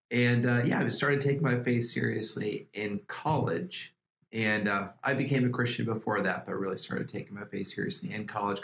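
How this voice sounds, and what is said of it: Voice affected by a cold. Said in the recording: “I apologize for my voice. I'm getting over a cold.”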